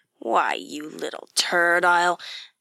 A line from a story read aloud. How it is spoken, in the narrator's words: snarled